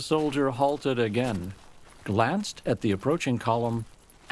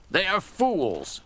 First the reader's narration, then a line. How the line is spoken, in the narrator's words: he exclaimed vehemently